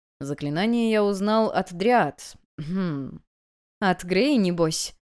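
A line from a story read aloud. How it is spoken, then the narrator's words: Snide question. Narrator (Russian): ехидно спросила я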